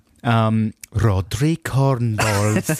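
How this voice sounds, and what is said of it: Put-on Welsh accent. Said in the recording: “That's my Welsh accent.”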